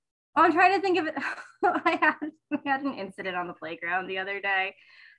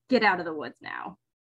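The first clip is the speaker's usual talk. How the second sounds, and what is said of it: Gentle, not-stern teacher voice. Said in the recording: “That's some shitty teacher voice. That doesn't sound stern at all. That sounds like the good fairy”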